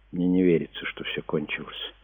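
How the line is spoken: Quiet. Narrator (Russian): тихо сказала Диана

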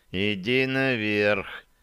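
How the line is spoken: Hissed reply. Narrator (Russian): прошипел в ответ стрелок

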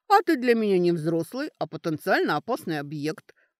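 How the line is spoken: Curt retort. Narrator (Russian): отрезала Сашка

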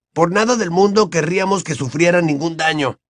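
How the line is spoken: Angry exclamation. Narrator (Spanish): exclamó Ron con enojo

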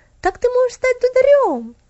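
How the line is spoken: Happy exclamation. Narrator (Russian): воскликнула Стефали, счастливая от своей идеи

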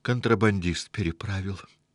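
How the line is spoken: Sad lie. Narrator (Russian): грустно соврал

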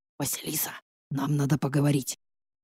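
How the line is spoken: Whisper in ear. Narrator (Russian): шепнул мне на ухо

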